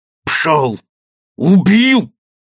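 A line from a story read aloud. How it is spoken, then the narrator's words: Barking snap. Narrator (Russian): рявкнул Гирин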